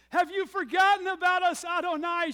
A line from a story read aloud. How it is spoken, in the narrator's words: She cried out